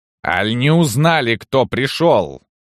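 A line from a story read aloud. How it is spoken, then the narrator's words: Menacing woman's growl. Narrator (Russian): зарычала уже грозная барыня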